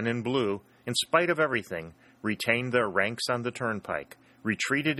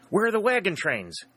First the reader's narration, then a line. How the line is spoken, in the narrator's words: exclaimed, shouting forth his words